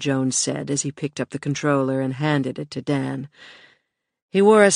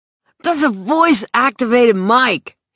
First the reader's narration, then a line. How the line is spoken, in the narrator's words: he snapped, but his hands were trembling